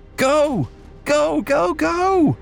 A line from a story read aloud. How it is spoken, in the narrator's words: yelled